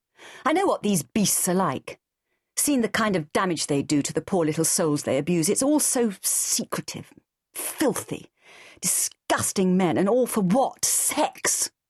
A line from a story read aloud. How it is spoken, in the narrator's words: spat out the word like a vile taste